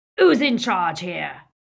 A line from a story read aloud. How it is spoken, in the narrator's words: roared Greyback, covering his moment of inadequacy